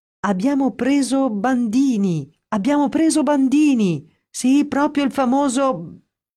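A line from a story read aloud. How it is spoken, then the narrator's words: Excited shouting. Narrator (Italian): a gridare tutto esaltato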